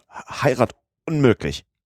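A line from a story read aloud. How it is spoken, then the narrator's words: Stammering. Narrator (German): stotterte Passepartout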